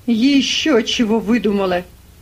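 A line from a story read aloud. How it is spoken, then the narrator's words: Shouting. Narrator (Russian): кричит Скекс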